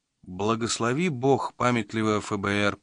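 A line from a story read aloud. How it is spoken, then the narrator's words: Mumbling. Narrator (Russian): пробормотал Магоца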